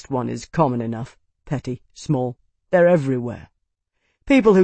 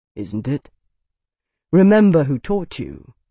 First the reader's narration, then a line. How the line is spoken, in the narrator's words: Bernard said, his voice gentle, the words clear, firm